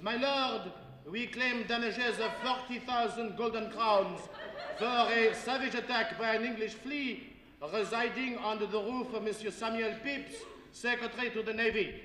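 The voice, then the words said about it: Poor put-on French accent. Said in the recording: “doing a fairly rotten French accent as the plaintiff's counsel”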